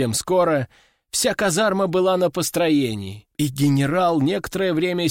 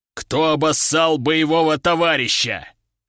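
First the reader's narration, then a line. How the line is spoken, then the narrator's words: Deep-voiced. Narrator (Russian): пробасил он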